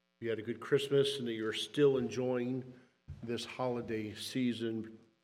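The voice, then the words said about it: Voice strained by illness. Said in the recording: “apologize for my voice this morning. My cough, I'm sure that's coming.”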